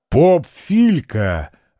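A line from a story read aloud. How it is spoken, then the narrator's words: Deep booming laughter. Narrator (Russian): басом захохотал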